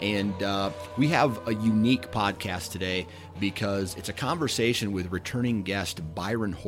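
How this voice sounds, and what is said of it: Usual voice. Nothing is said of it.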